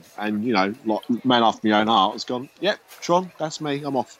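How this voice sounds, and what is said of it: Strong Cockney-style accent. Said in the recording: “how strongly your accent came out at that point ... You sounded like Bert the Sweep”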